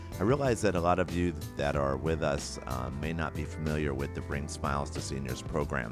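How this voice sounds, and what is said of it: Noticeably altered, unwell-sounding voice. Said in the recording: “my voice sounds a little bit different this week ... I picked up a bug that didn't seem to want to go away, and it's left me with this new voice”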